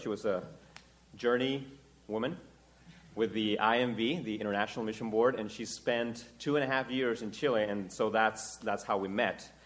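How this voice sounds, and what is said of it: Chilean Spanish accent in English. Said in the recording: “If you can hear the accent in my speaking, that's because I was born and raised in Chile.”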